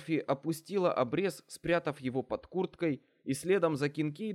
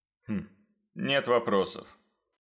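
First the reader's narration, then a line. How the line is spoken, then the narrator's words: Snort. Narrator (Russian): хмыкнул Кинкейд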